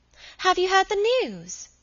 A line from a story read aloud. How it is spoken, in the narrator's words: Dolly cried